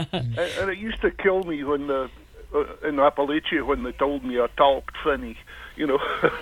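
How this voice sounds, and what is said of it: Scottish brogue accent. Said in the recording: “Here we are with the Scottish Brogue.”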